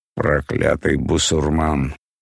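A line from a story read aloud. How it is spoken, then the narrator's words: Grumbled. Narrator (Russian): проворчал Спицын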